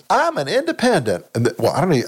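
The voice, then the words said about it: Bad Susan Collins impression. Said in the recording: “That's a bad Sue Collins accent. I don't have a Sue Collins accent.”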